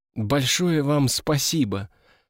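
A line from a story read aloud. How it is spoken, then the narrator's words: Soft. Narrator (Russian): сказала она мягко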